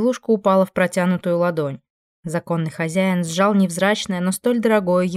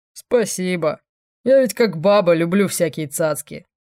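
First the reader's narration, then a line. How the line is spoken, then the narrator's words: Demon's smirking snort. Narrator (Russian): хмыкнул демон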